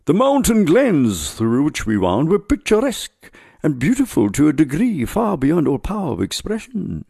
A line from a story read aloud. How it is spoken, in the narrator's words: he exclaimed